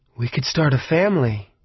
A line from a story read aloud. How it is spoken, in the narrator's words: I breathed